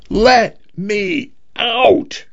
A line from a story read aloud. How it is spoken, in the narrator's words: he screamed